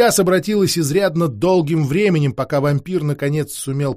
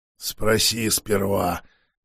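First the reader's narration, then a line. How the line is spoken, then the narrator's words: Hoarse wheeze. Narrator (Russian): прохрипел вампир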